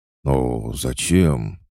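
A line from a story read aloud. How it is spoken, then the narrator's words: Confused question. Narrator (Russian): растерянно спросил очкарик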